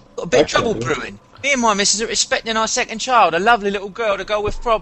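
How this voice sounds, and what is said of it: Put-on British accent. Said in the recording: “British accent, go.”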